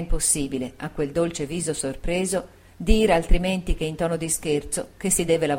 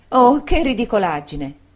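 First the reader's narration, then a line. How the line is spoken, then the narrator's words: Exclaimed. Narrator (Italian): esclamò Dora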